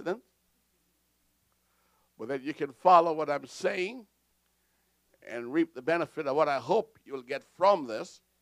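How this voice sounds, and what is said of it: Accented speech, slowed down. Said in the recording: “I'm going to slow down for the sake of clarity and coherency, that my accent don't throw you off”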